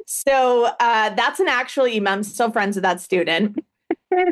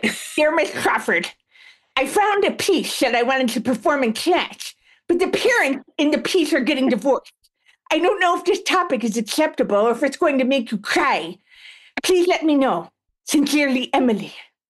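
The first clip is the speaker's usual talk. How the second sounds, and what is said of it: Kid voice talking through braces. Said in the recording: “my impression of what these emails sounded like ... all of my students, remember, they all have braces and mouth gear”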